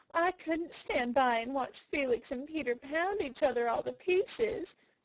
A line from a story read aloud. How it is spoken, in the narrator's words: she sobbed